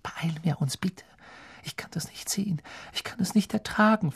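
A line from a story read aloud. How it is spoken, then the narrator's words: Whispered. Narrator (German): flüsterte Hermine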